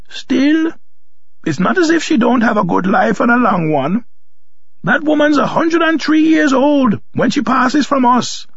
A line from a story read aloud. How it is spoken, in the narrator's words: stopped her sobbing long enough to announce